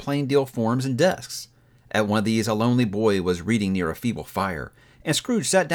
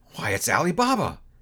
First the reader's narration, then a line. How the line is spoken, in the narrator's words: Scrooge exclaimed in ecstasy